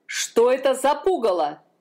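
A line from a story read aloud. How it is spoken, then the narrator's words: Shouting king. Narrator (Russian): закричал король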